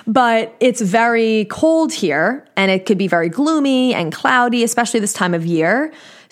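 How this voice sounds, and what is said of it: New York accent. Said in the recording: “if you couldn't tell by my accent, my parents, one's from, grew up in Queens, one grew up in Brooklyn. So the accent just can never escape me.”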